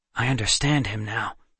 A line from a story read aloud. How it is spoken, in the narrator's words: Seth whispered quickly